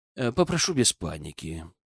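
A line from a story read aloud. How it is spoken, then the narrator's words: Calm. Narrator (Russian): произнес он, спокойно приближаясь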